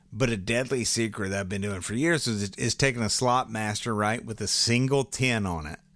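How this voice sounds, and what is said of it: Hoarse, strained voice. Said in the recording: “I'm losing my voice. I've been on the boat too much.”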